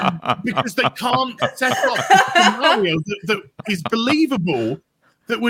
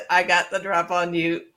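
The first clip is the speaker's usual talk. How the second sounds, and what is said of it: Robotic voice. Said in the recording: “did a robot voice”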